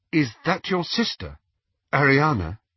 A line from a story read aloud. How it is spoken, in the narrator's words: said Hermione rather timidly